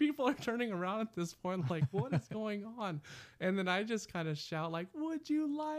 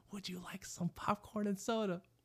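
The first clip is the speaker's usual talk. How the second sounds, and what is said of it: Whispering. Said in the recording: “I'm whispering, trying to whisper it in his ear”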